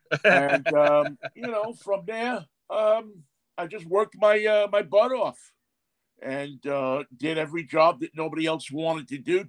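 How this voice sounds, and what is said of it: Slight New York accent. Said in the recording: “I have a bit of a New York accent”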